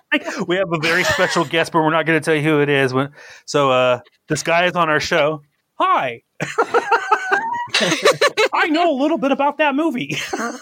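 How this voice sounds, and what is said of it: Poor impression, sounds like Mickey Mouse. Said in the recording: “That was my Spielberg impression. It's terrible. Sounds like Mickey Mouse.”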